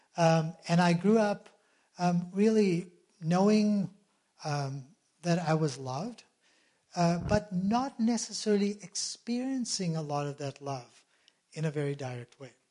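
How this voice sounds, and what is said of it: South African accent. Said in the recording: “My parents were home missionaries in South Africa. That's where the accent comes from.”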